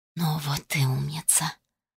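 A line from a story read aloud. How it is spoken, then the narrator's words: Close tender whisper. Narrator (Russian): прошептал совсем рядом такой родной и близкий голос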